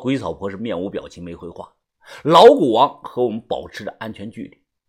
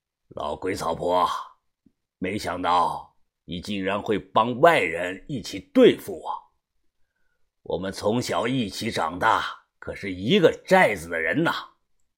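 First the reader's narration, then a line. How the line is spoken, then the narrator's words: Hoarse voice. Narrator (Chinese): 老古王 他声音沙哑的说道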